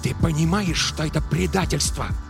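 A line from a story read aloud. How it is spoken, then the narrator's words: Hissing. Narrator (Russian): прошипел Робертс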